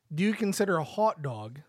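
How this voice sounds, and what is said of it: Attempted Canadian accent. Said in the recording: “I tried to say that with a Canadian accent”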